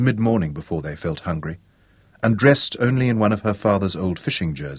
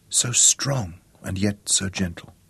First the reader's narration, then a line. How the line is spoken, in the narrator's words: she whispered